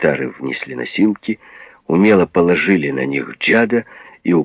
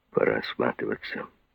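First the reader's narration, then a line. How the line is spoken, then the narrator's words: Grumbled. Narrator (Russian): буркнул Рокки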